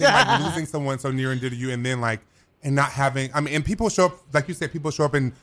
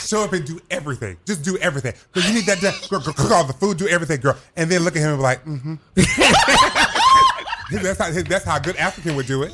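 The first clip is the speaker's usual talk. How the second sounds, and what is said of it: Imitates another person's voice. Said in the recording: “Your same voice is so good. ... Your Seydou impression is on point.”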